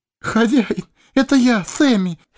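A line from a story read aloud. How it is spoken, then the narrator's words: Sobbing. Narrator (Russian): всхлипнул хоббит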